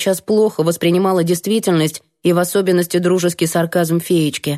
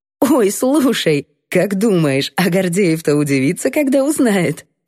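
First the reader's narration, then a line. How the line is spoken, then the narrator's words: Cheerful giggling. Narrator (Russian): Весело прыснула Наташка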